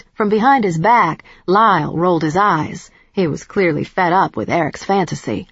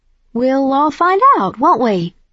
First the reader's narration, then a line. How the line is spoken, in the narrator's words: I said brightly